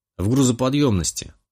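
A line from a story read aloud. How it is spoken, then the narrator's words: Snorted. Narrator (Russian): хмыкнул я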